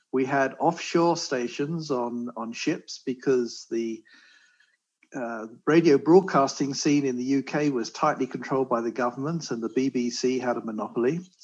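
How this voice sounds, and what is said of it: British accent from London. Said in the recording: “you can probably tell from my accent, I'm not a California native here. I was born and raised in London, England”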